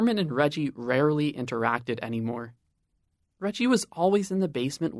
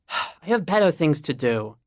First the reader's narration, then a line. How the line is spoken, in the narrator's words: Reggie sighed